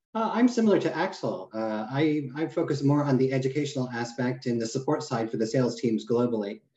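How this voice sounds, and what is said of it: American accent. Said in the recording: “I came from America. Obviously, you can hear the accent.”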